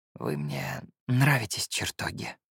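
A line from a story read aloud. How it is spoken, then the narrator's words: Whispered. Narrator (Russian): прошептал я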